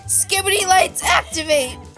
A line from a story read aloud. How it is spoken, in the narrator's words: the Christmas tree shouted